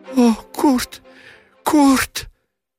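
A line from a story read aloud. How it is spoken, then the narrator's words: Sobbing cry, choking wail. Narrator (Russian): рыдающе вскрикнула немка, по-детски затряслась, захлебнулась воплем и плачем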